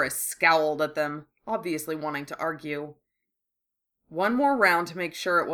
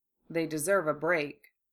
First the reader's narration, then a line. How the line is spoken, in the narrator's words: Remus said quietly in agreement